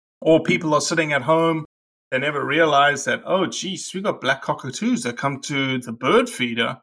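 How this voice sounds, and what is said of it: Usual voice. Nothing is said of it.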